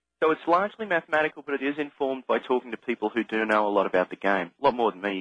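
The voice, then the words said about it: Australian accent. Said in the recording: “You can tell I've got an Australian accent.”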